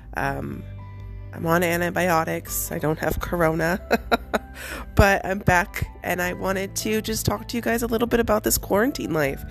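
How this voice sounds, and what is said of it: Voice sounding different, recovering. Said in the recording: “if you can hear how different my voice sounds, I'm getting over a cold and a double ear infection, and I lost my voice”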